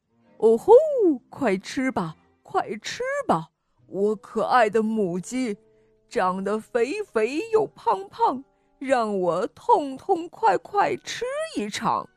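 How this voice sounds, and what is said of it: Quiet muttering chant. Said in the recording (Chinese): “他小声地念叨着”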